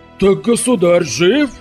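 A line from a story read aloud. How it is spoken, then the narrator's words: Choking exclamation. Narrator (Russian): чуть не поперхнувшись грибом, воскликнул генерал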